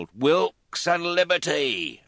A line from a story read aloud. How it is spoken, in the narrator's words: Some cried his name, others yelled